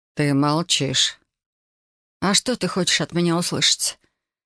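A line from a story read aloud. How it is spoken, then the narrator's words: Lifeless tone. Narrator (Russian): Безжизненным тоном поинтересовалась я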